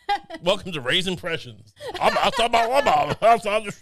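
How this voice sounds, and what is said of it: Imitates another person's voice. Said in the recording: “It'll take me 1 out of 10 times I can do an impression that's vaguely recognizable”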